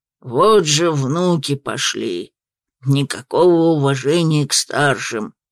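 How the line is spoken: Grumbling little dragon. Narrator (Russian): Ворчал дракончик

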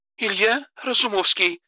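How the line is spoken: Confused repetition. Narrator (Russian): растерянно повторила Алена

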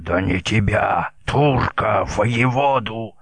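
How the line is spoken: Hoarse helpless rage. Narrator (Russian): уже хрипел в бессильной ярости Баклан

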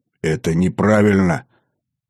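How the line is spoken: Forced out with difficulty. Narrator (Russian): С трудом выдавил я из себя

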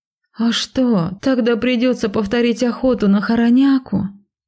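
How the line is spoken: Groaning. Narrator (Russian): простонала

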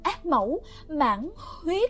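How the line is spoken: Flustered stammering. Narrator (Vietnamese): Nàng ta đọc mà lúng ta lúng túng, lắp bắp

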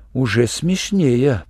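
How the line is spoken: Muttered. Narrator (Russian): пробормотал Шурик

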